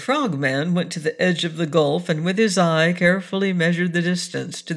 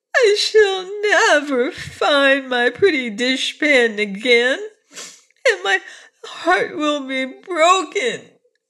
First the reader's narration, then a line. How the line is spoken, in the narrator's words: she sobbed